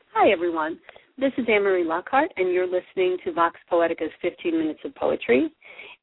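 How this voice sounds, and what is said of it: Voice affected by a cold. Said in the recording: “I have a little bit of a cold, lingering cold today, and I apologize for my voice, which usually sounds so much classier.”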